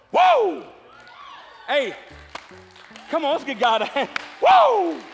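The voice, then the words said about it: Shouting. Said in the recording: “I'm shouting.”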